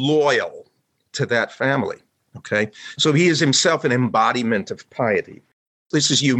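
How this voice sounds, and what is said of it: Usual voice. Nothing is said of it.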